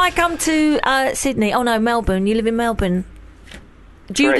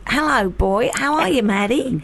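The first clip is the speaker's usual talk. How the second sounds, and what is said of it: Put-on Australian accent, mixed quality. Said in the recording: “Is my Australian accent good? ... terrible ... Not bad ... 7 out of 10”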